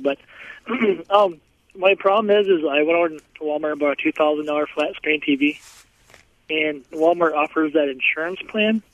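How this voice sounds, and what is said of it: Rough, congested-sounding voice. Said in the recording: “Excuse my voice. I'm kind of coming off the cold.”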